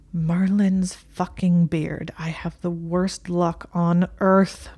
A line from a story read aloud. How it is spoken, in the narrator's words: Malfoy moaned